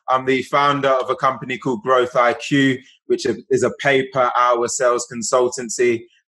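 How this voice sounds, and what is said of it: British accent. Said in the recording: “based out of the UK, as the accent hopefully tells you”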